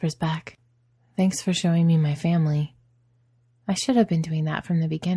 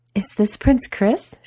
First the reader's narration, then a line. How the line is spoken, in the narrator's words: She exclaims